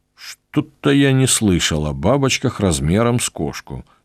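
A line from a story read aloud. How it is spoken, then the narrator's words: Grumbling. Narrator (Russian): проворчал я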